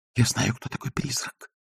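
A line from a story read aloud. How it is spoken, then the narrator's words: Whisper. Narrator (Russian): прошептал Агнеса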